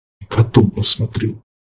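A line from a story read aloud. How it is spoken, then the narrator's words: Grumble. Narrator (Russian): проворчал Харган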